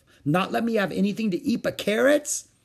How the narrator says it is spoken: Mother laughed

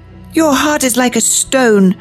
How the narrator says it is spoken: she cried

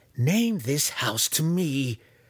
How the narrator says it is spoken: Malice pleaded

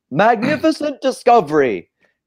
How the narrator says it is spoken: he yells

